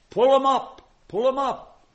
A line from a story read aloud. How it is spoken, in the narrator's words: They sent up a shout